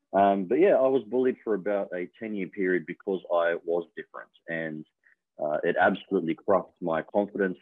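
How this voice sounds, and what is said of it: Australian accent. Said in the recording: “as you can hear now, I've picked up the Australian accent quite well”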